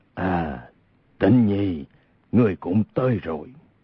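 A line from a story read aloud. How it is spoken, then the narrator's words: Glad, smiling, low voice. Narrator (Vietnamese): Hồng Thất Công vô cùng vui mừng, khóe miệng hiện ra nét cười, hạ giọng nói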